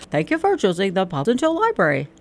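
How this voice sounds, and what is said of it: Imitates the old book drop's voice. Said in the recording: “my impression of that”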